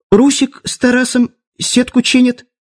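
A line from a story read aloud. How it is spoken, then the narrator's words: Squeaky novice voice. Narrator (Russian): пискнул начинающий маг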